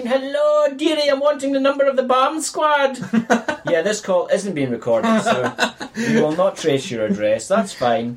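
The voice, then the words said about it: Put-on Irish accent. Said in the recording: “You not hear me Irish accent?”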